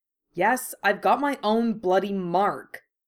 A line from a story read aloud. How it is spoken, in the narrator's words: Harry said sharply